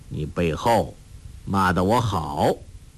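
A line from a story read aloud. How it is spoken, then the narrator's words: Cold. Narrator (Chinese): 黄药师冷冷地说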